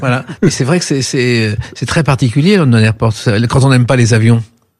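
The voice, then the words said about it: Nice regional French accent. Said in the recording (French): “cet accent niçois”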